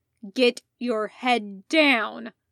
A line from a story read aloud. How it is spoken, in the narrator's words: Jason growled